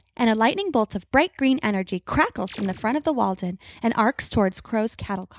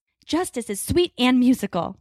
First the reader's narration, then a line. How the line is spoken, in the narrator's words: Grace snarls